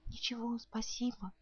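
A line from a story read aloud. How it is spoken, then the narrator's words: Quiet. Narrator (Russian): она бы сказала тоже тихонько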